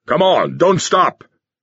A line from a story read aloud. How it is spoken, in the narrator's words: the booming, enlarged voice of Sherikov thundered, magnified by rows of wall speakers along the corridor